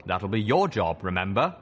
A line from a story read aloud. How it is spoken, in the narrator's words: He chuckled